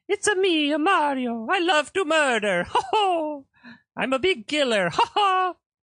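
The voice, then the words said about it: Stereotyped Italian video game character voice. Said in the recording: “Everyone loves to do the Mario voice ... so racist against Italians ... It is a racist voice”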